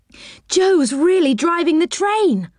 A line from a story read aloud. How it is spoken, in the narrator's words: cried Beth